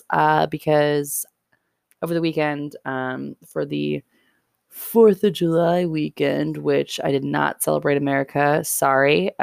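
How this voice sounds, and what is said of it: Slightly hoarse voice. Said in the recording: “My voice is currently a little hoarse”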